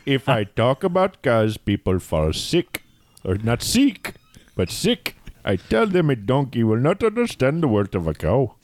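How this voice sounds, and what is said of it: Put-on Indian accent, Apu impression. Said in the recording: “It sounds better if you actually use the accent ... Thank you, Apu.”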